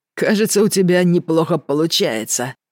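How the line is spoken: Hoarse rasp. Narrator (Russian): прохрипел он

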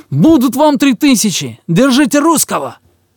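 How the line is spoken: Sudden shout. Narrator (Russian): Вдруг изверг без носа как крикнет

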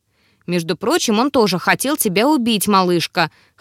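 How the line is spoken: Demon's smirking snort. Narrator (Russian): хмыкнул демон

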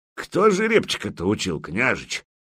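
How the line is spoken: Mocking question. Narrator (Russian): насмешливо спросил косматый

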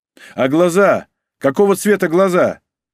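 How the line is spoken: Shouting after someone, male. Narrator (Russian): крикнул он вслед уходящей девушке

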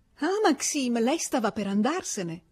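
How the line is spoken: Slightly irritated reproachful exclamation. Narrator (Italian): esclamò con un tono di rimprovero leggermente indispettito

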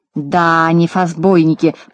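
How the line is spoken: Grumbled. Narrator (Russian): проворчал Скуперфильд

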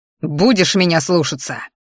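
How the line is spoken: Growling. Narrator (Russian): Она зарычала

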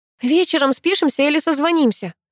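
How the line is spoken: Shouted. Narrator (Russian): выкрикнула я Пашке

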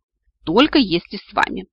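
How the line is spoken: Grumbling. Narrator (Russian): буркнула

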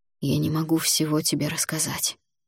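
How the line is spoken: Barely audible. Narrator (Russian): едва слышно произнес он

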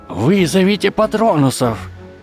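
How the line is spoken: Shout. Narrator (Russian): крикнул директор

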